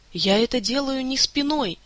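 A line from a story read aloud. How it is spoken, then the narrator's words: Moaning. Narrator (Russian): простонала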